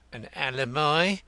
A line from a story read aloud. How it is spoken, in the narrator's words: gasped Wimp